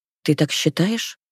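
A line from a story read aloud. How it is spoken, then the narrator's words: Quiet. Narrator (Russian): Мои слова вырываются тихо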